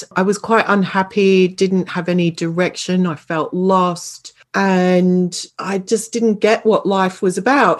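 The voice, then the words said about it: Australian accent. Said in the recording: “You can probably tell from my accent. I know you know I'm from Australia originally”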